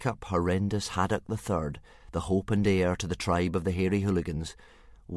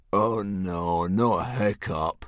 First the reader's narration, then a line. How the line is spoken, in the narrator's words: groaned Dog's Breath the Durbrain, and most of the other boys